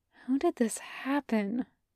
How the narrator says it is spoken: Takashi whispers

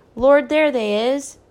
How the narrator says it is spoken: Big Ma cried

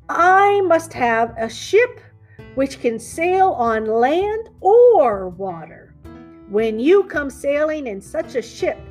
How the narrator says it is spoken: he said

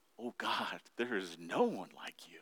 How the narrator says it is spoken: whisper

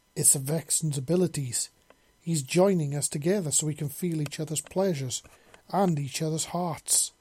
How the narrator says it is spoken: Jalen exclaimed as she bore down, never ceasing her incredible movements

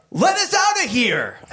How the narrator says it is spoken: Frank shouted at Hobo Johnny

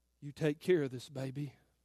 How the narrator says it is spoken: the old man said in a trembling voice

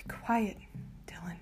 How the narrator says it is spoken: I whisper

